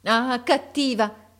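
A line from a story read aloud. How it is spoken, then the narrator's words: Exclaiming. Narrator (Italian): esclamò essa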